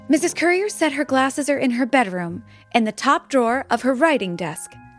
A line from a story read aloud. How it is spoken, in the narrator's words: said Molly